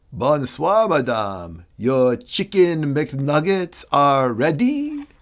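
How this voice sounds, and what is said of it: Put-on French accent. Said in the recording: “That French you just gave us, French accent, I should say”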